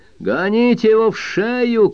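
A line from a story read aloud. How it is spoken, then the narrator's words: A father shouts. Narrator (Russian): крикнул чей-то папаша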